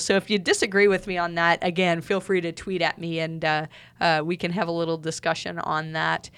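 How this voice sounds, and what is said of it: Hoarse, fading voice. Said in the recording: “I'm losing my voice even”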